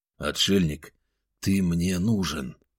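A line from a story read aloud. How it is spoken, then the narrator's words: Undertone. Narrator (Russian): вполголоса проговорил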